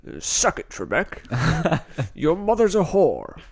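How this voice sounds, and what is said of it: Imitates another person's voice. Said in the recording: “That's a pretty good Sean Connery impression.”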